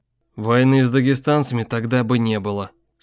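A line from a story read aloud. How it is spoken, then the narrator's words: Calm even voice. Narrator (Russian): спокойным ровным голосом сказал Иваницкий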